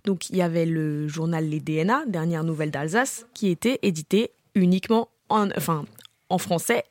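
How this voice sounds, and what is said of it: Very singsong accent. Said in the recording (French): “C'est hyper chantant comme accent.”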